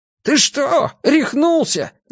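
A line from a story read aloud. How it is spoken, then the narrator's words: Yelled. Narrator (Russian): заорал его приятель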